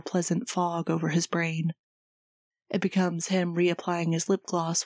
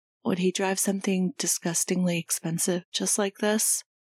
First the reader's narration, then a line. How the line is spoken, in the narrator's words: He sighs